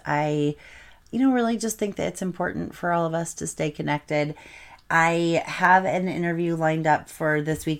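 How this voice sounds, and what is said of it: Tired, slightly tongue-tied voice. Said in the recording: “I sound a little tired and a little bit tongue-tied”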